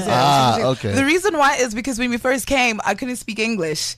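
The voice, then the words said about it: Accent with American influence. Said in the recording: “I hear an accent... that accent sounds very much like it has an American influence”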